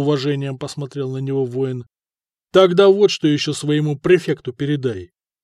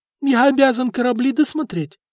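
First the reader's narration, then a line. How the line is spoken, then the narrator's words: Brave squeak. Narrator (Russian): отважно пискнул чиновник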